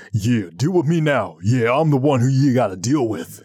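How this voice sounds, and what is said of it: Put-on deeper, tough-guy voice. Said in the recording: “I'll do the deeper voice.”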